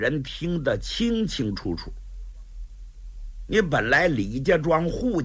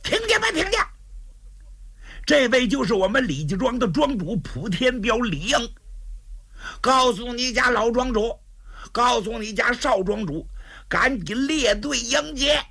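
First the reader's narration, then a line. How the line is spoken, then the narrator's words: Shouting. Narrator (Chinese): 杜兴也喊上了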